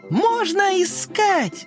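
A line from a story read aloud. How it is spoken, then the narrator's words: Shouting. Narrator (Russian): закричала Карамелька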